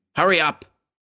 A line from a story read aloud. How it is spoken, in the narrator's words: Ed barked